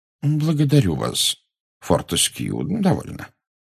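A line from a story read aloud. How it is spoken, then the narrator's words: Gentle rebuke. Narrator (Russian): мягко осадил его Дамблдор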